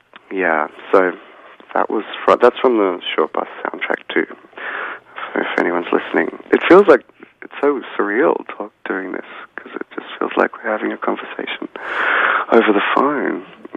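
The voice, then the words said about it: Rough, hoarse voice. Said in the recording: “I drank a lot of whiskey last night. My voice is a little rough.”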